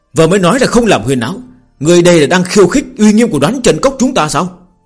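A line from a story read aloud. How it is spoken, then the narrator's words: Shout. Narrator (Vietnamese): Phương Hành quát lên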